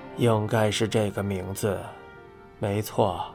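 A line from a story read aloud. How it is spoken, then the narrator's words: Flat monotone. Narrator (Chinese): 曾村的声音没有任何起伏，回应道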